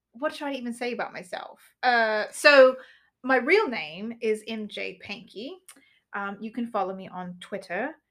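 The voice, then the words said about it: Put-on British accent. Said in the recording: “I'm just going to talk in a British accent because okay. I can't get out of it”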